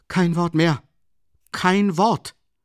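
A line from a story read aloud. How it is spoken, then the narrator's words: Calling out. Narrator (German): rief Raskolnikow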